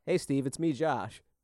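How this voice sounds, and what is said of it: Thick put-on Minnesota accent. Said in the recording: “The only accent I can do is a white dude from Minnesota ... That's a pretty fucking good one ... I could barely understand what you just said there. So thick.”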